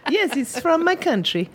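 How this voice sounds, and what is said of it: Put-on French accent. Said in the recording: “I am doing some French accent”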